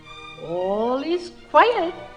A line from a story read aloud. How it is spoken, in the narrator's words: chirped the bird gaily